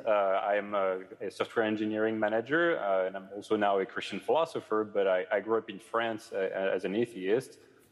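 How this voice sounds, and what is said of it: French accent. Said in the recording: “I'm French, as my accent really betrays”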